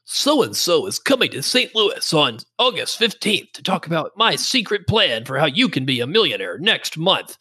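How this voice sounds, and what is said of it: Imitates a radio advertisement announcer. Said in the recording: “I'm listening to a radio show and it's like ... am I doing a good impression?”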